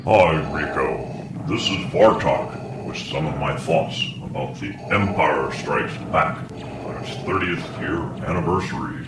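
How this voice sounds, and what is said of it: Darth Vader impression. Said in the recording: “I'll have to work on my Darth Vader impersonation.”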